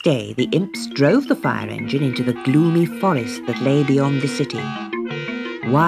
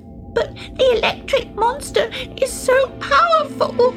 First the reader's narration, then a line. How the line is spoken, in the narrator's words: sobbed Glimmer